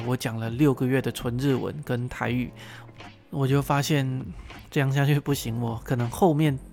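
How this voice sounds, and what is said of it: Mandarin with not-quite-Taiwanese accent. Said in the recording (Chinese): “可能有人觉得我的口音或者是我的咬字不太像台湾人 ... 口音就越被越带越偏”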